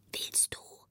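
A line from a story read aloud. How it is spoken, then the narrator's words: Very quiet voice. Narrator (German): fragte ganz leise eine Stimme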